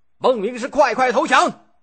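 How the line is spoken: Young general shouting. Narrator (Chinese): 先真的儿子少年将军先居，大声叫喊着

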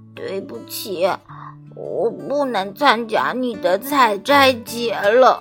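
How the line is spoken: Hoarse. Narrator (Chinese): 声音嘶哑地说

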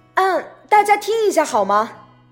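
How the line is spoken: Sudden loud call. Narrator (Chinese): 爸爸突然大声叫道

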